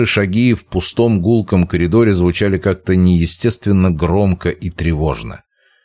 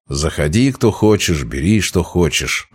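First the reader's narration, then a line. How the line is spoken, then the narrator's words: Muttered. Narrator (Russian): пробормотал Путилин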